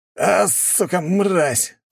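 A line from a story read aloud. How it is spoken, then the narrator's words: Hissed. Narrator (Russian): зашипел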